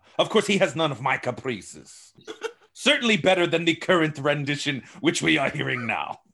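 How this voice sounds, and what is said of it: Put-on foreign accent in character. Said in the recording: “I like his accent”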